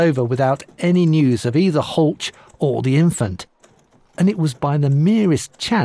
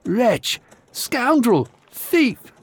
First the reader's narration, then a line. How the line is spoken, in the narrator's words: she cried